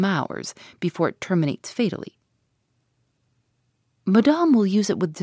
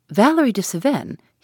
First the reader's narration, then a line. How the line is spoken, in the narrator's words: he exclaimed